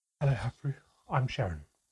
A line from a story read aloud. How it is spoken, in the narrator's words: Mother spoke breathlessly